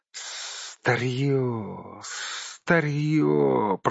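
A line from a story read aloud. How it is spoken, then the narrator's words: Hissing. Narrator (Russian): прошипел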